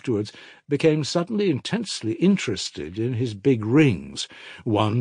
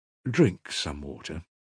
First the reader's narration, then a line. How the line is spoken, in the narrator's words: said the investigating lawyer softly for the tenth time